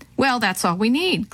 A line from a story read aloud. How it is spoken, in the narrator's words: Quentin laughed nervously